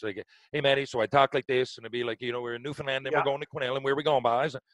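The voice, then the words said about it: Strong, fast Newfoundland accent. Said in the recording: “my accent, if you pick up on one now, that's one thing. But back then, I was like really like this ... I had to really slow down ... my accent changed. I think people couldn't understand.”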